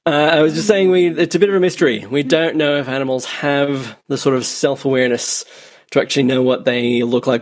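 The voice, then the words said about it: Irish-Australian mixed accent. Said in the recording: “your accent indicates that you're someone who's lived in all sorts of places... My guess is Irish-Australian... Born in Northern Ireland, but raised in the rough suburbs of Western Sydney... you haven't lost it, that's for sure”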